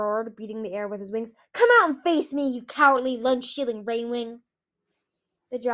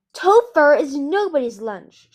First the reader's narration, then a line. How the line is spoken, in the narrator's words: she shouted